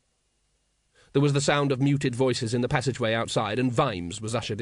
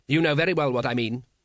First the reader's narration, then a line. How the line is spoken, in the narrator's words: said Veterinari sharply